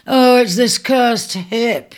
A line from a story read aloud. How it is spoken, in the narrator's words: groaned